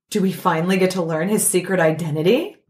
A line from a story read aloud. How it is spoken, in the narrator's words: Flash gasped